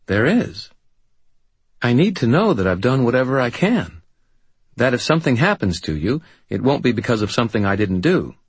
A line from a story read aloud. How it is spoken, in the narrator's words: she said earnestly